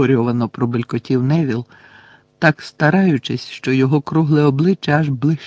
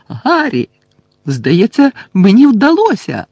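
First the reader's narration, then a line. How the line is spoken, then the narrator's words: Excited shout. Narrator (Ukrainian): закричав Шеймус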